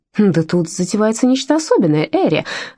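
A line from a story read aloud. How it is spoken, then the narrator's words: Exclamation. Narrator (Russian): воскликнула Джеральдина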